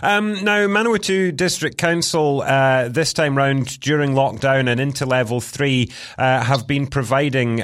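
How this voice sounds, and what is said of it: Speaks with a noticeable accent. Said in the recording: “as someone with an accent, some people struggle to understand me at the best of times”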